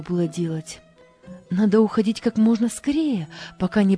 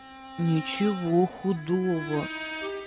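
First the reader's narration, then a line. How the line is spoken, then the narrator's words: Whispered reply. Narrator (Russian): прошептал в ответ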